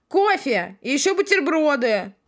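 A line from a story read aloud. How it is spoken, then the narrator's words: Shouted reply. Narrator (Russian): Крикнула в ответ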